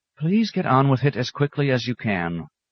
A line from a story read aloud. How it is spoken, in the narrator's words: he sighed